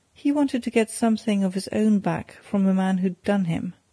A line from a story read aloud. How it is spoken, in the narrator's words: answered Glassdale, with a short laugh